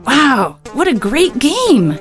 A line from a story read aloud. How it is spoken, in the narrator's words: exclaimed a lady